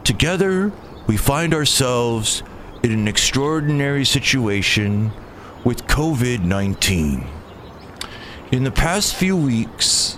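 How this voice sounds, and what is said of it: Imitates another person's voice. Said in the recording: “doing my Carl Sagan voice.”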